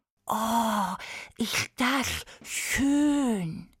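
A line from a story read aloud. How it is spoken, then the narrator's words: Male hiss. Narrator (German): zischelte er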